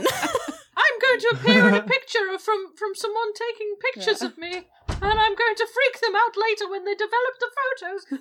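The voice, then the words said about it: Ghost character voice. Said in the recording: “It's a very good ghost impression ... Best ghost impression I've ever done”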